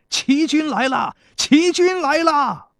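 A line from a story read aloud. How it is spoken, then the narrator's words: Soldiers shouting loudly. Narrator (Chinese): 田国的士兵，一边射箭，一边高声喊道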